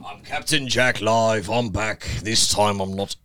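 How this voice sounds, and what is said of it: Pirate character voice, Captain Jack. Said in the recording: “Amber Heard's version of Johnny Depp ... It's Captain Jack live ... Johnny Depp's capable of doing Captain Jack.”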